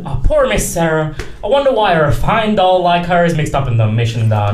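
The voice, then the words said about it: Nasal put-on American accent. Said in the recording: “I think the accent I do is quite nasal. It's much more nasal than a British accent.”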